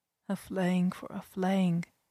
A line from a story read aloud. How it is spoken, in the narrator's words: I murmured